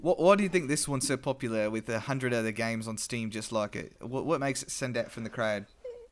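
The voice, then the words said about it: Put-on Australian accent. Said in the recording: “Was that your attempt at a Cockney accent? ... No, that was us. That was a little Australian. ... I was moving towards it. It was my Steve Irwin.”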